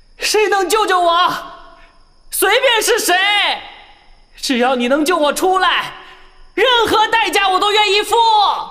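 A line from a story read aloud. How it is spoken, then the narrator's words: Resentful desperate cry. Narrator (Chinese): 那个不甘的声音再次发出呐喊，话语中充满了怨念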